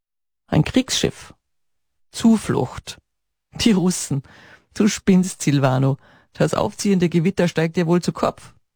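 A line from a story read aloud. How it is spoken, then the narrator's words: Laughing. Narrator (German): lachte Ottaviano auf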